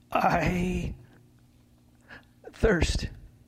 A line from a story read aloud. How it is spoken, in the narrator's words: Jesus cried